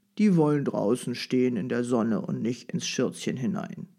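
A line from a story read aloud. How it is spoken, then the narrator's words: Grumbling old man. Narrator (German): brummte der Großvater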